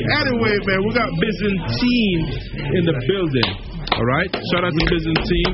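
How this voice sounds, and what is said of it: British accent. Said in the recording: “It's my British accent. ... I'm just pronouncing the thing different.”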